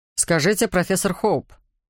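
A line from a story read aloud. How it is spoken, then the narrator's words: Growl. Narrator (Russian): прорычал он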